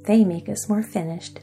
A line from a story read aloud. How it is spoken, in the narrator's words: said Cap'n Bill with a chuckle